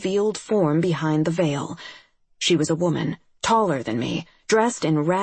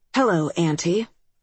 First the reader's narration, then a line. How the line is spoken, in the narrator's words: I said in a level voice